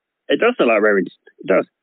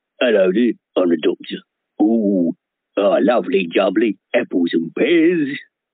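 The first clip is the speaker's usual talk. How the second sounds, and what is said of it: Danny Dyer impression, sounds like Ray Winstone. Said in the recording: “I can do an impression of Daddy Dyer... That sounds like Ray Winston.”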